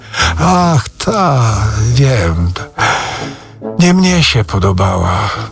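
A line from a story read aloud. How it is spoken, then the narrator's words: Sigh. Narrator (Polish): westchnął Rzecki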